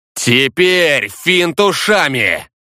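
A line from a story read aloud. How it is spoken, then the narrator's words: Roared. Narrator (Russian): Проревел Некор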